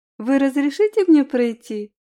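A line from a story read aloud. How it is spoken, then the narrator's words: Saccharine sweet voice. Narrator (Russian): произнесла я приторным голосом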